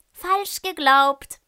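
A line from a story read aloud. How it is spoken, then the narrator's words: Call. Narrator (German): ruft Lolli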